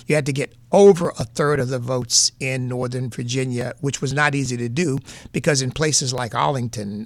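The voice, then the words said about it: New England accent. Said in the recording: “My New England accent comes”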